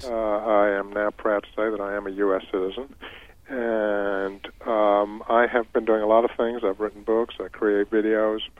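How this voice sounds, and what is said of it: English accent. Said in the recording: “most people can tell a little bit by your accent that you're not from here ... I come from England originally, as you can probably tell”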